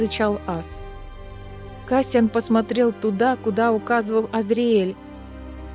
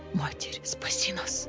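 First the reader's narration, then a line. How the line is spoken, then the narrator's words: Terrified whisper. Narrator (Russian): прошептал Азриэль, которого охватил отнюдь неблагоговейный ужас при виде мертвецов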